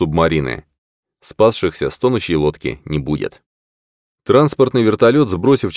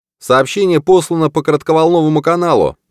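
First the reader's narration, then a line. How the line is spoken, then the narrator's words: Shouted from a distance. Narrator (Russian): прокричал с поста связи радист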